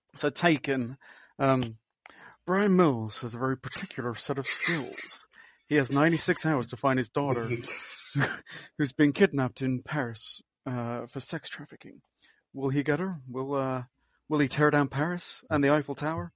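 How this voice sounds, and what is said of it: Brian Mills impression from Taken. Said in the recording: “I'd attempt it in Brian Mills' accent.”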